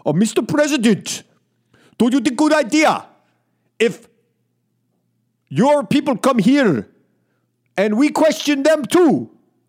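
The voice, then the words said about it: Put-on Russian accent impression. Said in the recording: “Let me try to do a Putin... I don't know if I could do a Russian accent... I got to go into my Rocky and Bullwinkle before I could do Putin”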